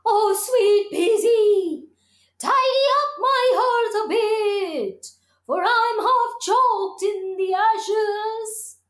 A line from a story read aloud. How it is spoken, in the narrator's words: the fire cried out